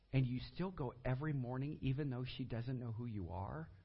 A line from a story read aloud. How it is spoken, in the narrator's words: He gently smiled